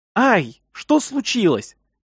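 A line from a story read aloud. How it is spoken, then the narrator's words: Shouted into ear. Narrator (Russian): прокричала мне в ухо Карина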